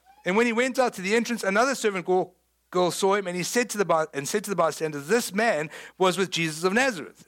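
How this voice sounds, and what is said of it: South African English accent. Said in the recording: “People know I'm South African, right? ... Surprise, I'm from South Africa.”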